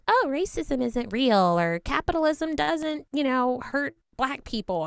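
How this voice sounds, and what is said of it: Convincing put-on white girl accent. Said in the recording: “That white girl accent is on point. ... It's very convincing.”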